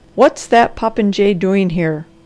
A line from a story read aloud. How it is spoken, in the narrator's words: thundered Dr